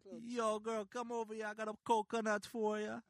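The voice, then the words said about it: Put-on Jamaican accent. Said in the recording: “put on a Jamaican accent ... I want to hear your accent ... That's not bad.”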